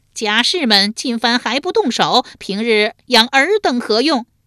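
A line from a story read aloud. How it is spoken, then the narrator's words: Loud alarmed shout. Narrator (Chinese): 树雕见其不妙，大声喝道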